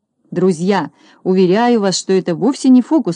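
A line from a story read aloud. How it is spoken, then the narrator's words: Plain. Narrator (Russian): сказал Шпунтик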